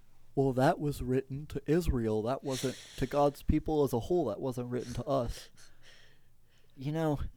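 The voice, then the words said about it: Mocking impersonation of other people. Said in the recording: “my impersonation of people who say that”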